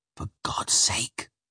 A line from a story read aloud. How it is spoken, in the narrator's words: I whispered to Spring